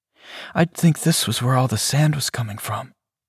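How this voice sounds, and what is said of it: Hushed, quiet voice. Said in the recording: “in a hushed voice”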